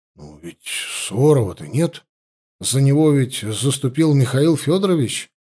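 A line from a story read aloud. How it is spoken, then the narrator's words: Uncertain mutter. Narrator (Russian): неуверенно пробормотал тот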